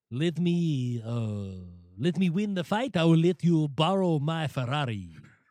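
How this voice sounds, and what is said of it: Haitian accent that sounds overly French. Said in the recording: “It's an interesting ... voice there. ... a little French in there. ... you went a little too French. You went fruity French.”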